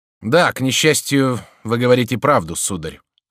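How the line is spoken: Softened, sighing agreement. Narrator (Russian): согласился всадник, смягчившись и вздохнув

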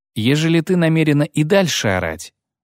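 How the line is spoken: Calm interruption. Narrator (Russian): спокойно прервала Дриада

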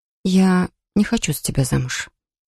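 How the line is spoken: Quiet but firm. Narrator (Russian): тихо, но твердо произнесла я

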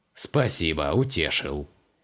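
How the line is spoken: Chaplain's wry snort. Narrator (Russian): хмыкнул капеллан

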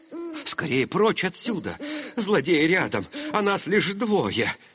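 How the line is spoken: Frightened servant's exclamation. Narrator (Russian): испуганно воскликнул слуга

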